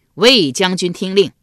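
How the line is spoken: Loud call. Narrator (Chinese): 管仲又高声叫道

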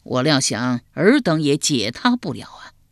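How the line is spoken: Sighing. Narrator (Chinese): 管仲叹了口气道

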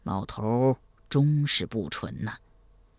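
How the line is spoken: Soft sigh. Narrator (Chinese): 赵匡胤轻声叹道

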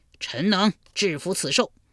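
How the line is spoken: Loud. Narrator (Chinese): 魏抽大声说

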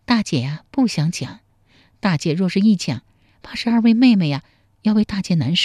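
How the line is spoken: Sighing, sorrowful. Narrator (Chinese): 秀英长叹一口气说

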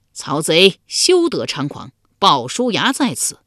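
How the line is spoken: Warrior's loud shout. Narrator (Chinese): 一将 高声叫道

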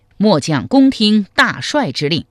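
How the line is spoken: Loud reply. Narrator (Chinese): 韩通高声应曰

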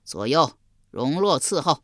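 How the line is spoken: Delighted loud voice. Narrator (Chinese): 襄王喜得合不拢嘴，高声说道

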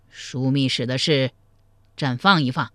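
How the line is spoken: Cold, angry. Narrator (Chinese): 但因他正生着赵普的气，冷声说道

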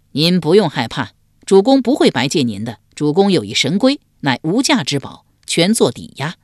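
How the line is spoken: Laughing. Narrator (Chinese): 管仲笑道

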